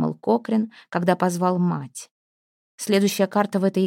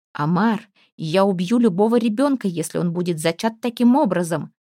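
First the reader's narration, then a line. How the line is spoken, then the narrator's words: Shrill squealing voice. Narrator (Russian): провизжал голос изо рта Пламтри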